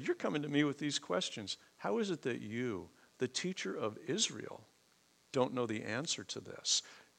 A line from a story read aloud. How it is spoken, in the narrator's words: how gently he did that